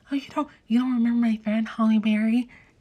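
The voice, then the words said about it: Imitates a character's voice. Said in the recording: “I don't know why I'm doing her voice like that.”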